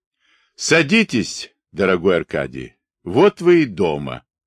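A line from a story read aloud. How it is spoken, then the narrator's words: Calm. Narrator (Russian): поручик Эллин спокойно сказал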